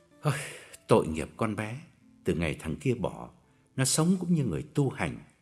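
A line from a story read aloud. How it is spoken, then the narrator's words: Lowered, sorrowful voice. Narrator (Vietnamese): hạ giọng bùi ngùi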